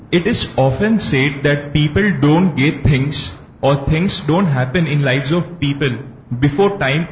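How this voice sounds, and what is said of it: Strong accent, hard to understand. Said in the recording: “Your accent is difficult for me to understand.”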